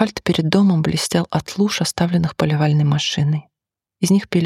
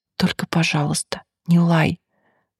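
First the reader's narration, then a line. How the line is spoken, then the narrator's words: Whispered request. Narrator (Russian): шепотом попросил он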